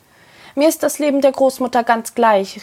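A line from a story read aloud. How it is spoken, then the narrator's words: Called out. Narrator (German): rief Androscha ihm zu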